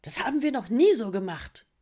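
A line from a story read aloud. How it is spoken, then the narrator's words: Hissed. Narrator (German): fauchte sie dann die Alpakas an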